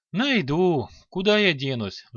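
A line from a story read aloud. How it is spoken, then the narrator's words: Sigh. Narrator (Russian): вздохнул Илар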